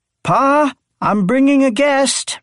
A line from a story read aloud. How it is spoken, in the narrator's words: she shouted into her phone